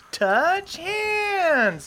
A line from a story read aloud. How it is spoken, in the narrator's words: Derlin yells